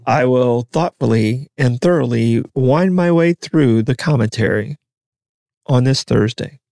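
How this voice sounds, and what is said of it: Smooth public-radio announcer voice. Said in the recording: “Great NPR voice today.”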